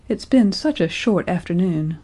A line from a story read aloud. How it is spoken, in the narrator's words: sighed